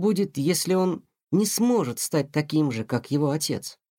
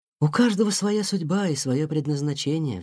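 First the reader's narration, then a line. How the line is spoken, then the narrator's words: Mother sighing. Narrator (Russian): вздохнула мама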